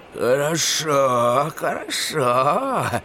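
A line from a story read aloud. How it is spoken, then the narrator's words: Grumbling. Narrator (Russian): проворчала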